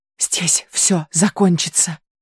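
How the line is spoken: Whispered. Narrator (Russian): прошептала Айрис Кире

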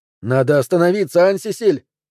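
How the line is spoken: Shouting. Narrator (Russian): закричал Жан-Рубен

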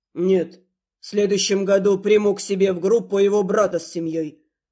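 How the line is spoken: Calm reassurance. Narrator (Russian): спокойно заверил Рид

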